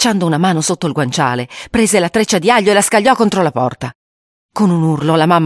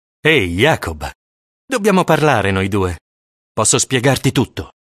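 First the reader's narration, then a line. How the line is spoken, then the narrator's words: Affable tone. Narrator (Italian): disse in tono affabile il papà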